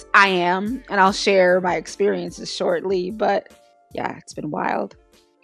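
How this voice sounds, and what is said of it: Hoarse, strained voice. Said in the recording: “apologize for my voice. I know it sounds like I'm losing my voice.”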